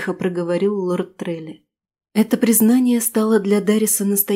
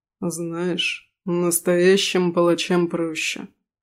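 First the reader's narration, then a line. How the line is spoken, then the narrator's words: Continued with a snort. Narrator (Russian): хмыкнув, продолжил ректор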